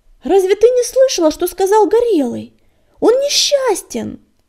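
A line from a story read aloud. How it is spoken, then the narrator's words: Shouting. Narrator (Russian): Закричал Огнегриф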